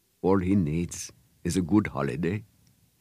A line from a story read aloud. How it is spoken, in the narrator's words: he said quietly